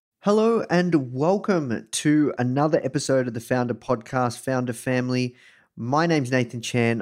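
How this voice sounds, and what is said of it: Australian accent. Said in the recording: “coming to you live from Melbourne, Australia. You can probably tell this from my accent.”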